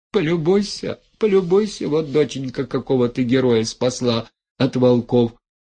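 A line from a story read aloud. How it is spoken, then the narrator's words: Whimpering. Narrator (Russian): хныкала Головешиха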